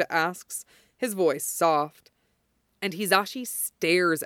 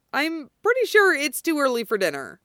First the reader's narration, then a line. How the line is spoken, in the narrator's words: Hizashi blurts out like an idiot